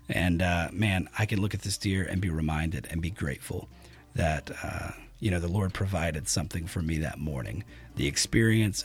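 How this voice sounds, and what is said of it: Scratchy, gravelly worn-out voice. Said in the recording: “My voice has had about as much as it can take. I'm pretty sure it's gotten worse as I've talked. ... my scratchy, gravelly voice”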